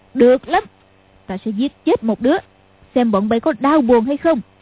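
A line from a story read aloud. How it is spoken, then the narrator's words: Shouted. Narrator (Vietnamese): Lý Mặc Sầu quát lên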